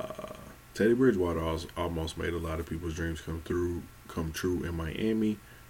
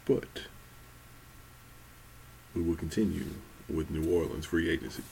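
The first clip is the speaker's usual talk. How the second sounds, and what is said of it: Put-on radio announcer voice. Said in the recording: “radio voice”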